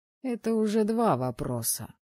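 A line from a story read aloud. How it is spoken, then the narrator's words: Displeased grumble. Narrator (Russian): недовольно пробурчал Харор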